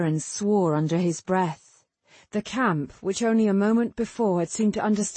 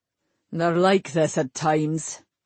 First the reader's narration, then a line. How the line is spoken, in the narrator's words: he said in a resigned tone of voice